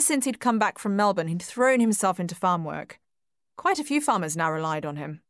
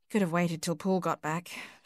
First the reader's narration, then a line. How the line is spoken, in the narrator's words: she murmured